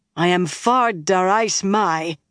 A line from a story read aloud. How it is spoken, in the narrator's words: Avienda said angrily